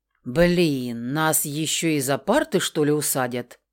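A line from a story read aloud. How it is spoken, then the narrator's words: Puzzled mumble. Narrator (Russian): Озадаченно пробормотал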